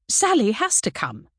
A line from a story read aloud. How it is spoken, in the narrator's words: told her firmly